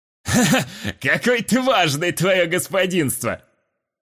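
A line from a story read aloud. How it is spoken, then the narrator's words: Caustic mocking laugh. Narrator (Russian): Едко посмеялся урман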